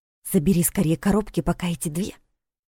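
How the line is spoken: Loud whisper. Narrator (Russian): Саша громким шепотом сказала

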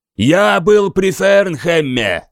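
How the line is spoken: Yell. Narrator (Russian): заорал

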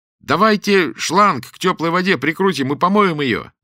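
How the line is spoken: Loud, from a distance. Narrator (Russian): издалека громко заговорил Саша

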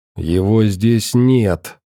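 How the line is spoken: Hiss. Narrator (Russian): прошипело тело Морфея где-то за спиной у ученого

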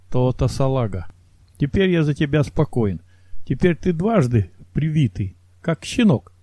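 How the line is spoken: Chuckling. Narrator (Russian): хохотнул Самсонов

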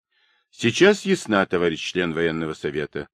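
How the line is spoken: Calm reply. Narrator (Russian): спокойно ответил Ташутин

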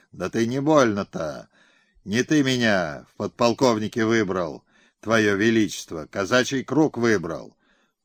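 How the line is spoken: Fearful mumbling. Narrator (Russian): Тот в страхе бормотал

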